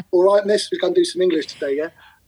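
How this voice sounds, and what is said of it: Cockney East London accent. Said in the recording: “I still spoke like a Cockney ... my East London accent”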